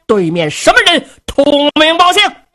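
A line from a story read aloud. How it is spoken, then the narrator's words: Loud shout. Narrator (Chinese): 新闻里压枪高声喊嚷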